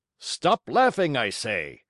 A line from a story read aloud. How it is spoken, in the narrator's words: he roared in a voice of thunder